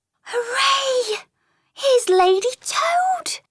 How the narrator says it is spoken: cried Mole, her face beaming

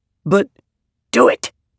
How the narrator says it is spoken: she snapped

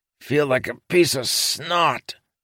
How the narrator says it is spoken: Lopin said, groaning

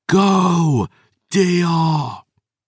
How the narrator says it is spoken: I roared at the top of my lungs

